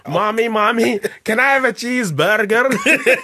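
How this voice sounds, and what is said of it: Put-on American accent, slightly Middle Eastern. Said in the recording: “American kids going around going... that went slightly Middle Eastern there”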